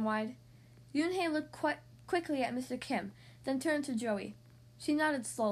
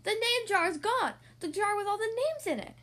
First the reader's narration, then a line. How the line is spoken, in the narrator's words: Ralph shouted at him